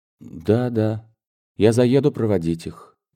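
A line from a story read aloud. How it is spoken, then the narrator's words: Sad. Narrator (Russian): печально ответил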